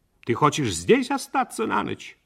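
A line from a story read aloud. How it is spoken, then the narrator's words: Sharp question. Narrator (Russian): Мать резко спросила у него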